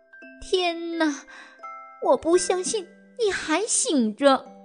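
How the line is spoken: Whisper. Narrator (Chinese): 黛拉小声说

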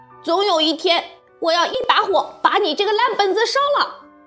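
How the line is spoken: Loud blustering. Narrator (Chinese): 他只有虚张声势，高声嚷嚷

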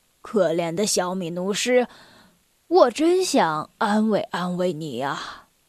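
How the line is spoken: Gentle old voice. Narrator (Chinese): 老狮子用很温柔的声调说

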